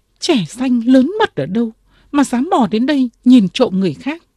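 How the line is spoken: Girl crying out. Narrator (Vietnamese): Cô gái đứng bật dậy kêu lên

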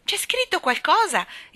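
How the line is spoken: Exclaiming. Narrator (Italian): esclamò

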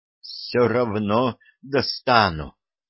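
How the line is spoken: Sharp exhaled words. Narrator (Russian): резко выдохнула в лицо Роксолана

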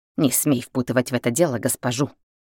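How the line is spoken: Hiss. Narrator (Russian): прошипела Рита

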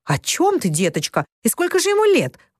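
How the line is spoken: Exclaiming. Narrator (Russian): воскликнула мисс Клара

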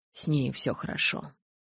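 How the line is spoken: Whisper. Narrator (Russian): прошептал Эдвард

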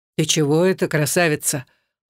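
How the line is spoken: Gentle deep bass. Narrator (Russian): ласково пробасил Руслан

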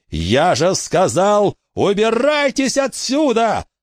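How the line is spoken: Yelling again. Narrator (Russian): Заорал он еще раз

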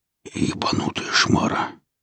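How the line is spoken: Barely audible rasp, young man. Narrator (Russian): едва слышно прохрипел парень

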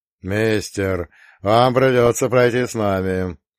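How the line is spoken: Polite booming drone. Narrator (Russian): вежливо прогудел лоб

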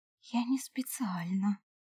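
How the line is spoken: Stunned whisper. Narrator (Russian): прошептала я, ошарашенная признаниями эльфа

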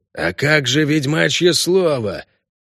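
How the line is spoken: Hoarse orc shout. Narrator (Russian): хрипло выкрикнул орк Сатера

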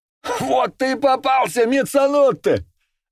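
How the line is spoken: Gloating yell. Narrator (Russian): злорадно завопил Карбоне

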